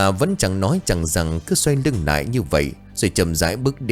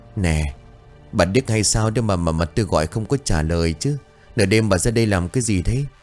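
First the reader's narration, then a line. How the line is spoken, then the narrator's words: Breathless old woman. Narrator (Vietnamese): Bà thở hổn hển rồi bảo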